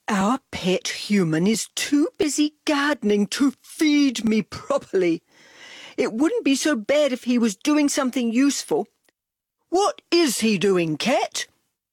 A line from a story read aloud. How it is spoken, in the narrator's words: Dog moaned